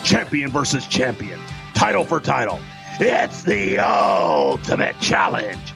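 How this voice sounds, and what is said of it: Impression of Vince McMahon. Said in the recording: “Bruce Pritchard doing an impression of Vince McMahon? ... that's definitely not Vince McMahon. ... Bruce Pritchard does an amazing Vince McMahon.”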